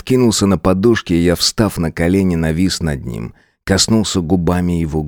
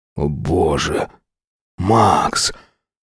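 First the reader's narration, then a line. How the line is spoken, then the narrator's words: Halting, strained mutter. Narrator (Russian): Сбивчиво, с трудом пробормотал Сайлас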